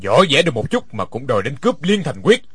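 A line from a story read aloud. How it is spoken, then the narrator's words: Cold laughing voice. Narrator (Vietnamese): Đinh Điển lạnh lùng cười nói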